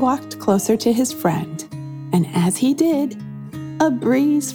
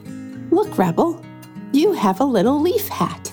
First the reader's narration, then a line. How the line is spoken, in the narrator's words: Rob giggled